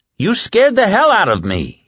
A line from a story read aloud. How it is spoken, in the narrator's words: he roared